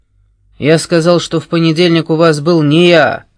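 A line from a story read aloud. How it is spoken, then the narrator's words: Barked. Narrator (Russian): рявкнул Муран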